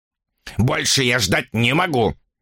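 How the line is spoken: Sharp. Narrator (Russian): резко сказал он

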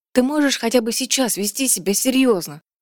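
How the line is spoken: Trembling pleading voice. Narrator (Russian): дрожащим голосом попросила она

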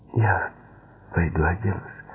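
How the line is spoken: Uncertain whisper. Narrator (Russian): прошептала она неуверенно

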